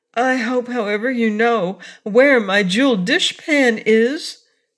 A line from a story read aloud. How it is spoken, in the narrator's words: said the cookie cook anxiously